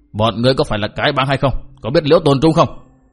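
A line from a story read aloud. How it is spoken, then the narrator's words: Barked question. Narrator (Vietnamese): Bao Đà Thắng cất tiếng quát hỏi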